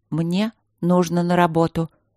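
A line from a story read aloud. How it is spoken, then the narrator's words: Quiet, conciliatory. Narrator (Russian): начала я тихо и примирительно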